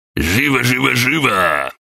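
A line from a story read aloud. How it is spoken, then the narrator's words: Roaring. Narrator (Russian): проревел Гаврош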